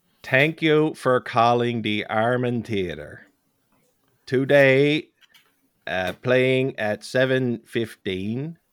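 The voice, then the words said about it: Deadpan West Coast Newfoundland accent. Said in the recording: “He had the most deadpan West Coast Newfoundland accent you'd ever hear in your life. And I'm going to do it right now.”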